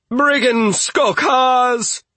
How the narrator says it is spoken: shouted

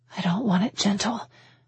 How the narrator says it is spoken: I whispered, short of breath

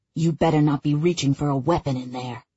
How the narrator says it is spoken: Tony hisses out

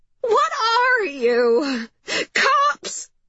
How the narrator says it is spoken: cried Mrs

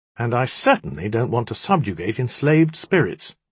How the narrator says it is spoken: she added brightly

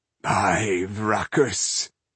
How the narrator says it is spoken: he groaned, staggering back 2 paces

